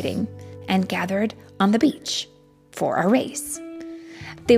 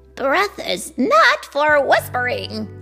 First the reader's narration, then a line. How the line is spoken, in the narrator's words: scoffed a cliff dragon